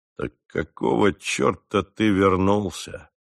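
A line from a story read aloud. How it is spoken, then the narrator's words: Grim question. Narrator (Russian): мрачно спросил он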